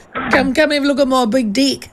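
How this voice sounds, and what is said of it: Mock Australian accent. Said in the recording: “you'd have a funny accent if you're in Australia ... you wouldn't be able to say six ... You'd have one of those funny accents.”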